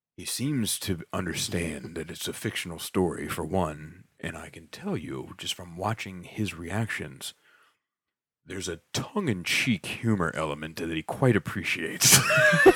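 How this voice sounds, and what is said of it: Impression of a friend's dad. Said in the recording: “your dad impression, spot on. That's what Mr. Skafas sounds like for real.”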